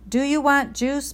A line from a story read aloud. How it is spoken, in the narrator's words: Mom screamed